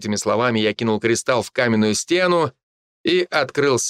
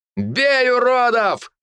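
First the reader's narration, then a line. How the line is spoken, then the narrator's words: Battle shout. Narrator (Russian): выкрикнул Егор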